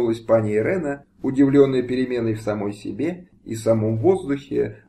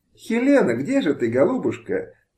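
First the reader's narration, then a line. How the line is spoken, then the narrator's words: Singsong joyful calling. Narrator (Russian): певуче, радостно позвала пани Выговская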